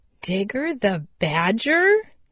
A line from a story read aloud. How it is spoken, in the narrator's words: he exclaimed